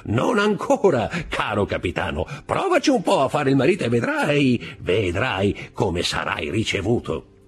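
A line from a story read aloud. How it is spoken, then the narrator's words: Laughing. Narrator (Italian): disse Caderousse ridendo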